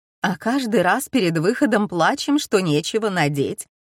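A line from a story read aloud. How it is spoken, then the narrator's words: Laughing. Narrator (Russian): добавила Ирис и рассмеялась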